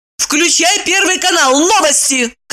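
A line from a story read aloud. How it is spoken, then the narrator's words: Shouted. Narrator (Russian): крикнула Ева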